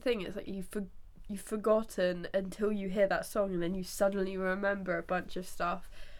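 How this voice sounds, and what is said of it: Congested, stuffy-nosed voice. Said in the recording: “I'm still quite congested ... my voice is really annoying ... You can hear it in your voice”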